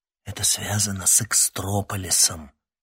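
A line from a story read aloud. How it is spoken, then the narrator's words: Lowered to whisper. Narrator (Russian): понизив голос до шепота, сказал он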